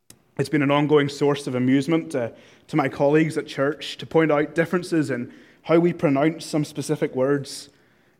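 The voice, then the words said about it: Northern Irish accent. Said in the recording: “in the 24 years I spent living back in Northern Ireland ... I'm talking, of course, about my accent.”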